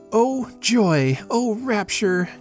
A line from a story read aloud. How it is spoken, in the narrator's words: cried Joanne